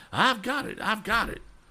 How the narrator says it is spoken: he cried

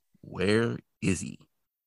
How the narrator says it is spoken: Bobby calmly asks

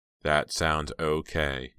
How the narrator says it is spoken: he said in a flat monotone

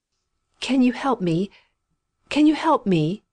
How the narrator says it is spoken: she gasped imploringly

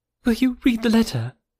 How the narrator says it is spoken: cried Harriet

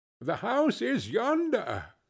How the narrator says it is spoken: Scrooge exclaimed

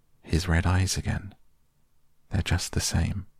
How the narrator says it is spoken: Lucy murmured, as if to herself

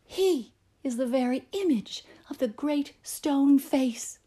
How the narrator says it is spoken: with an earnest shout, and evidently with as much good faith as ever, the people bellowed

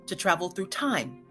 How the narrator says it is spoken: exclaimed the very young man

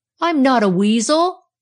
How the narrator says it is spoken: he yelled

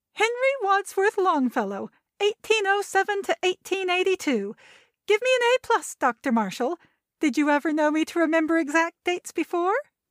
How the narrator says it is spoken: chanting at the top of her voice

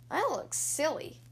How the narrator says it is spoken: muttered

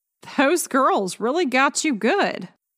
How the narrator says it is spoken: she laughed

